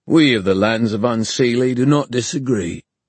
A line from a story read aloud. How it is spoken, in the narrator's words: said Obon pompously